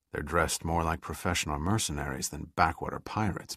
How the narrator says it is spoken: muttered Pitt

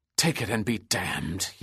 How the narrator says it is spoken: he hissed

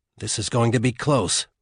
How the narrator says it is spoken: Juan said tightly

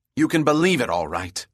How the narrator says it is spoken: snapped Bell

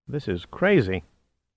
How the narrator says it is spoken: muttered

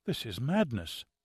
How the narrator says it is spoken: muttered Ambrose, with little or no feeling in his voice

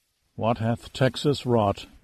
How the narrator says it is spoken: Giardino mumbled under his breath

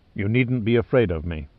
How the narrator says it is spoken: he said in a soothing tone

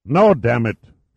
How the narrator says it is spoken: roared

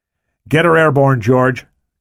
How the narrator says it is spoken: Cabrillo shouted

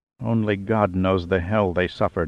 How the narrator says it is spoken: Acosta muttered, his face reddening with anger, the bile rising in his throat

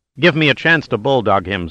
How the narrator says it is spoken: said Pitt

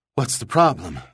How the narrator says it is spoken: Link panted

